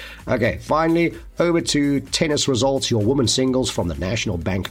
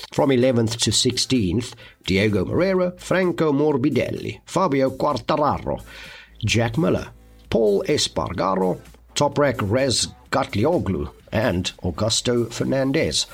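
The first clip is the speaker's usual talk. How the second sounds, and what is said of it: Put-on European accent on names. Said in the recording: “I don't know why I have to change my accent when I read out European or Italian or Spanish names and surnames”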